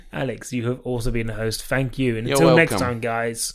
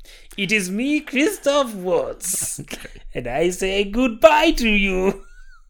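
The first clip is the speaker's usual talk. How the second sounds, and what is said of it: Christoph Waltz impression. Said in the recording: “a good Christoph Waltz impression? ... Yeah, it was the best.”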